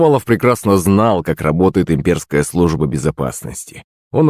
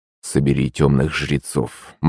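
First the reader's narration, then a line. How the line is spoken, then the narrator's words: Gloomy prince answering. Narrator (Russian): мрачно ответил ему князь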